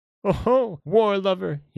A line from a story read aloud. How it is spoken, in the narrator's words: he cried